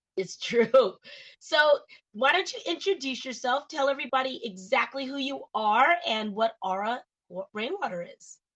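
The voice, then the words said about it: Hoarse, partly lost voice. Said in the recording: “I'm a little hoarse today, guys. ... I'm nursing a sore throat, and I lost my voice a little bit”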